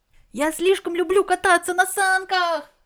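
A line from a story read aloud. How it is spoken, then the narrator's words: Shout. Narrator (Russian): закричал особо шустрый Барматуль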